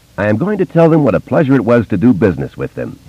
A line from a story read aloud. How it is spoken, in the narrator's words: he said, and laughed